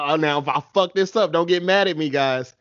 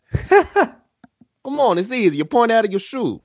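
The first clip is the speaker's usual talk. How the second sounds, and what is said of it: Put-on Italian accent. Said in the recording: “Do you have an Italian accent? That'd be the best.”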